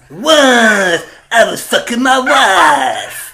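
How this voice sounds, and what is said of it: Comic character voice impression. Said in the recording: “You sound like the guy from League of Gentlemen. You sound like Pops from League of Gentlemen. ... that impression. ... that was Don Bartolo.”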